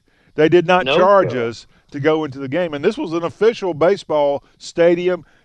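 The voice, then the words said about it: Southern American accent. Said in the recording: “my sexy Southern accent”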